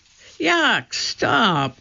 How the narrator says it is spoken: cried Annie

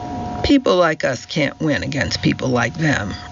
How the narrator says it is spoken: Roger said bitterly

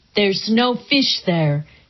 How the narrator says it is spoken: he said

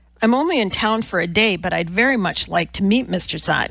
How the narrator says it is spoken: he said

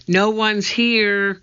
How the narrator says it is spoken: she shouted back

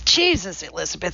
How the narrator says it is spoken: said

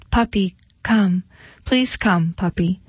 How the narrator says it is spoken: Diane, her lower lip quivering, in a soft voice she called

